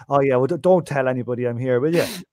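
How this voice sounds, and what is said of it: Put-on Irish accent. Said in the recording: “with an Irish accent”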